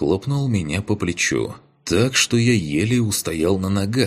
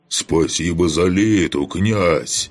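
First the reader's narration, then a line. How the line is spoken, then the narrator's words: Joyful roar. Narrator (Russian): Радостно проревел он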